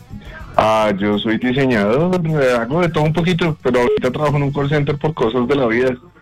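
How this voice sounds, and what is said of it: Radio announcer voice. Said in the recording (Spanish): “¿le han dicho que tiene voz de locutor?”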